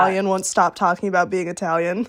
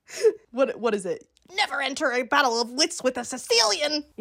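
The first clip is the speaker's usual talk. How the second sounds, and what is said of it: Imitates a movie character's voice. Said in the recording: “That was a good impression.”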